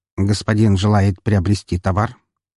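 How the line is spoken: Rattling synthesized voice. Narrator (Russian): осведомился он дребезжащим синтезированным голосом

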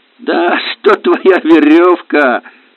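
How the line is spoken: Guffawing. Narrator (Russian): хохотал Иван

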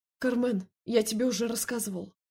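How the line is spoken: Snapping. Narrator (Russian): огрызнулся

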